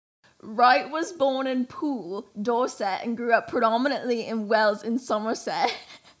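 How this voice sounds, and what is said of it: Put-on British accent. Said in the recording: “I need to do the accent. I need to do the accent. ... it doesn't sound the same ... that was actually really good ... of the Brits”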